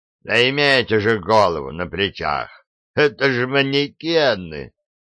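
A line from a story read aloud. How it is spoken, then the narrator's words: Short laugh. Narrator (Russian): хохотнул Фрезби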